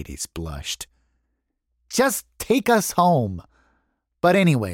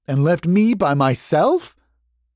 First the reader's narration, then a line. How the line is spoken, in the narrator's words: Charlie said